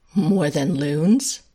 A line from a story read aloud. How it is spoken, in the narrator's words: Hayden laughs